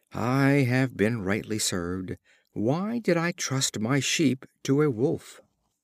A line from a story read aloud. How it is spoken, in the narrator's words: The shepherd, on his return, finding his flock destroyed, exclaimed